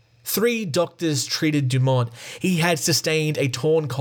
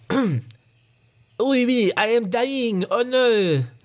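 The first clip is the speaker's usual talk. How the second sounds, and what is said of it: Put-on French accent, sounds Austrian. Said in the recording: “That's my French accent, but it sounds like Arnold Schwarzenegger.”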